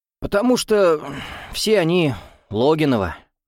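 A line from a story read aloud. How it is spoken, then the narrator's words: Sighing. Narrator (Russian): вздохнул Иван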